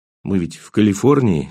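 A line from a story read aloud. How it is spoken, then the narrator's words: Still unsteady voice. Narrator (Russian): сказал я все еще нетвердым голосом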